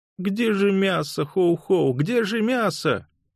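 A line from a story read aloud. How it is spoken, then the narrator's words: Whimpering. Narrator (Russian): захныкал он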